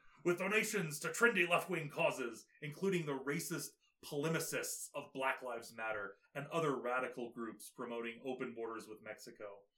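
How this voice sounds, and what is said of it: Imitates another person's voice. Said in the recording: “my Alex Jones impression”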